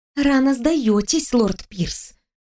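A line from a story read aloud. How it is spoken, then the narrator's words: Hissed. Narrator (Russian): прошипела я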